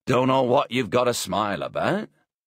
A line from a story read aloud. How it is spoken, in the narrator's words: Hayes grunted